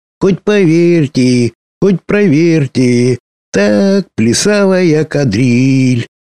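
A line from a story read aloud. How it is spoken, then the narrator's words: High ringing singing. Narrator (Russian): подпевала драконочка сама себе высоким, звонким голосом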